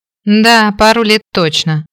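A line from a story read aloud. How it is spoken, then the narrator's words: Wry snort. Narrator (Russian): хмыкнул Мэтью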